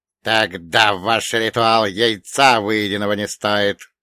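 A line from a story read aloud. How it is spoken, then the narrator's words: Angry hiss. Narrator (Russian): злобно прошипел Харон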